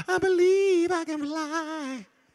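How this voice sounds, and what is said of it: Sung in falsetto. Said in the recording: “That was my falsetto.”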